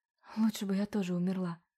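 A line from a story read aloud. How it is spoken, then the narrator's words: Mumbled. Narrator (Russian): пробормотала Ивета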